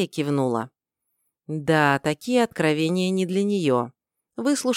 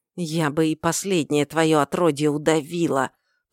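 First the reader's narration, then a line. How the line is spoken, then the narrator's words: Hissing. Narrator (Russian): прошипела Эрра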